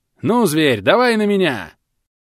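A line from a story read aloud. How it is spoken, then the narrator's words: Shout. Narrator (Russian): крикнул Клек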